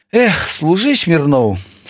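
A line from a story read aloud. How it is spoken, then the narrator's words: Sympathetic farewell with sigh. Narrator (Belarusian): сказаў яму на развітанне сам кіраўнік вучылішча і спачувальна уздыхнуў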